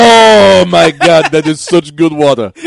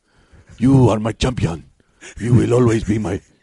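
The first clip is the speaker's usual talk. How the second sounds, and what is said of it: Crazy character voice, regal African-style accent. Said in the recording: “why not just give him a crazy voice? ... let him be T'Challa.”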